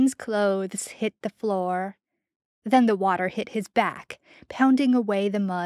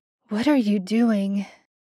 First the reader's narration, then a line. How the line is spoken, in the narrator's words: Sam's voice was clear over the sound of falling water, and only a rasp of breath